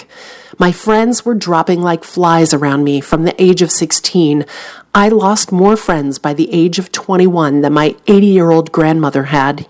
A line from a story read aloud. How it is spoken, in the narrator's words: he said